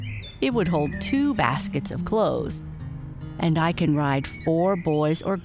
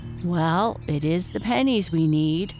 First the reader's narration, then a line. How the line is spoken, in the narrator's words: sighed Mrs